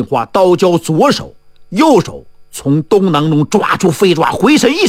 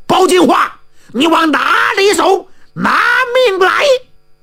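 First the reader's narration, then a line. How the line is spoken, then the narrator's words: Shouting while chasing. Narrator (Chinese): 于成龙边追边喊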